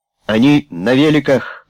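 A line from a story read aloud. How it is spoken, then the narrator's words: Shouted. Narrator (Russian): закричал Лэнс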